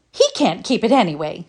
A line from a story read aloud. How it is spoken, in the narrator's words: scoffed Felicity